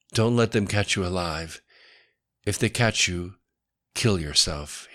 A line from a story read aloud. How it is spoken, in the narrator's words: he said quietly